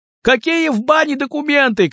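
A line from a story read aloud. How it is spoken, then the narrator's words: Shouted. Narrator (Russian): крикнул кто-то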